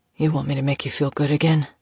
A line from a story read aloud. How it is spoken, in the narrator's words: He rasped against her mouth